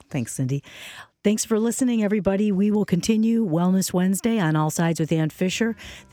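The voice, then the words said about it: Hoarse, failing voice. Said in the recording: “particularly if I keep losing my voice.”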